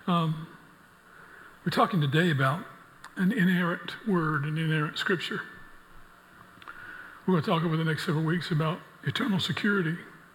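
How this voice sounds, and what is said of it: Impaired, rough-sounding voice. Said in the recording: “apologize for my voice, but as you see all this stuff blooming out around here, you can tell why it's that way.”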